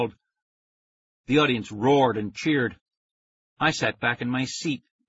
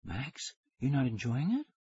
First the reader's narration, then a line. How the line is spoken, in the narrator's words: she whispered